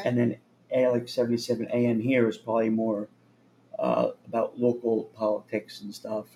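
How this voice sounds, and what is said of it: Worn-out, strained voice. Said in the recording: “My voice is kind of shot.”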